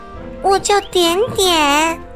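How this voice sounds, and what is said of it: Soft, quiet speaking voice. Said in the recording (Chinese): “小声的说道”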